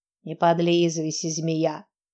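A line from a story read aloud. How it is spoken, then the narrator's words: Deep grumbling voice. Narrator (Russian): проворчал бас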